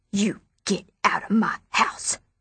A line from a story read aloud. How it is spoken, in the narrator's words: Abilene hissed